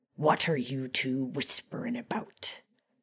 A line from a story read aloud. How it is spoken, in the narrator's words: Moody snapped